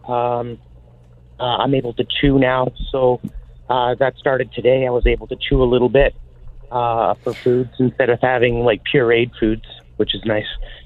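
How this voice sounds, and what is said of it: Weak, recovering voice. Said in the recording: “my voice is getting a little bit stronger every day. ... My throat is starting to heal up a little bit”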